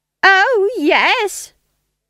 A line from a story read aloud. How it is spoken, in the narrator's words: shrieked Nanny